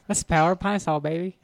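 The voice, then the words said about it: Lisping impression of another person's voice. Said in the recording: “you had like a little Mike Tyson lisp on it ... Do a Mike Tyson Power of Pine Saw commercial”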